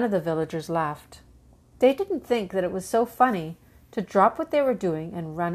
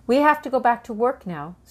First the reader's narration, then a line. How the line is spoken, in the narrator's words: said the baker with a sigh